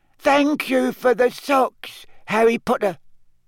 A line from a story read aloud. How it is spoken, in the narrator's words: Dobby called miserably from the hearth